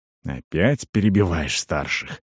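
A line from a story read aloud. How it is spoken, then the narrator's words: Muttered through teeth. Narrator (Russian): процедил Туур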